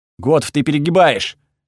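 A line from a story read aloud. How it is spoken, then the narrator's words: Barked. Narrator (Russian): рявкнул я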